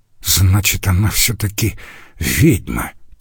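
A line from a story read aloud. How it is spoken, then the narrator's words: Muttered. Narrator (Russian): пробормотал другой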